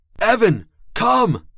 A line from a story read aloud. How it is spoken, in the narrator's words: I screamed the words, commanding